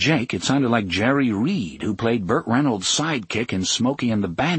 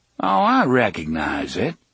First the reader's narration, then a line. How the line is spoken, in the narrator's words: the drawling voice returned